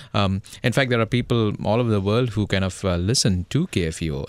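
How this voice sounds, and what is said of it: Indian English accent. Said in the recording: “my Indian accent, you see, where most of the Americans would have a tough time picking me up.”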